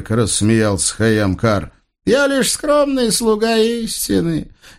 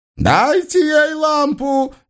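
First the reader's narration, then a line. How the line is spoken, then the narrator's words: Furious roar. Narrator (Russian): яростно взревел новый пророк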